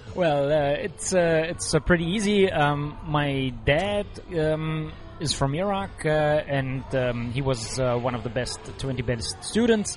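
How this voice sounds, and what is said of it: German accent. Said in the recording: “you have a German accent”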